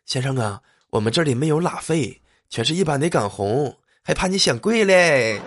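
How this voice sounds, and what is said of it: Waiter speaking in a whisper. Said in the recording (Chinese): “服务员学着小声”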